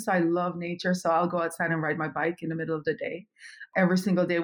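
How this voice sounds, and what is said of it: Jamaican accent. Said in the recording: “yes, you heard an accent. I am originally from Kingston, Jamaica.”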